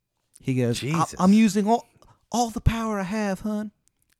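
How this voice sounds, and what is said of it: Deliberately bad put-on accent. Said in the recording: “this guy's fucking accent. I mean, terrible. ... It's bad. It's a bad accent.”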